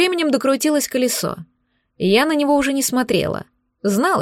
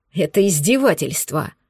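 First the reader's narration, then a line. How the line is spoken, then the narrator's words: Growl. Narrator (Russian): прорычал он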